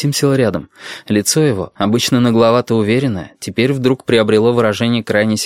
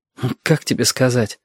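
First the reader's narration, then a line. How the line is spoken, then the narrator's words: Mutter. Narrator (Russian): пробормотал Арсен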